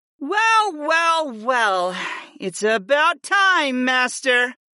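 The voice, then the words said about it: Drawling character voice. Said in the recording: “Fi drawled”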